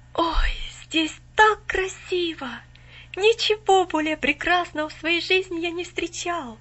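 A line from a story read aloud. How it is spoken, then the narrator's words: Awed exclamation. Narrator (Russian): воскликнул он, все еще под недавним впечатлением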